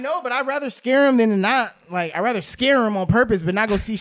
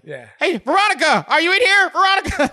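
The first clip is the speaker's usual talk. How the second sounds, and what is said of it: Yelling loudly. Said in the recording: “people yelling in the hallway ... yelling in the hallway. Yeah, I'm yelling.”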